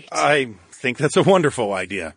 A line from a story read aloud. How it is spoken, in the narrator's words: chuckled